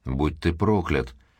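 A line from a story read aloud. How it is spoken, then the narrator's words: Muttering. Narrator (Russian): пробормотала она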